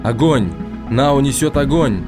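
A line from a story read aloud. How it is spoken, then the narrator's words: Shout. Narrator (Russian): Фаум закричал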